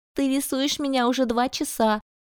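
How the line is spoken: Whining. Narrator (Russian): захныкала Диана

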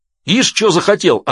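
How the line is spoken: Sergeant yelling back. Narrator (Russian): орал в ответ сержант

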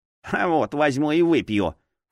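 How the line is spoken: Snort. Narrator (Russian): фыркнул кукольник

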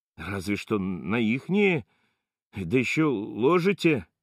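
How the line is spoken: Lost, bewildered mumble. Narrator (Russian): Бормочет потерянно

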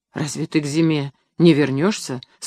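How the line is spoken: Dejected, sinking voice. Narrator (Russian): спросил Сергей упавшим голосом

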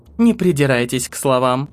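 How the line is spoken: Dry reply. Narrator (Russian): Сухо ответила Тэиль

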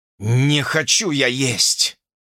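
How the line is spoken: Growling. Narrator (Russian): прорычал он

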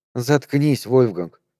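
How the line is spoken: Tired and hoarse. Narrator (Russian): сказала устало и сипло

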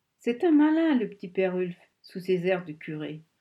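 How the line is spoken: Sneering snigger. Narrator (French): ricana José

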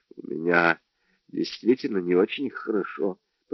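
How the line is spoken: Mumbled. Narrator (Russian): пробормотал Джордж

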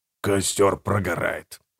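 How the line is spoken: Whisper. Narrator (Russian): прошептал Гегель

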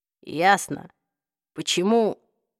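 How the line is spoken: Even, flat voice. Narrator (Russian): ровным голосом проговорил Джейс

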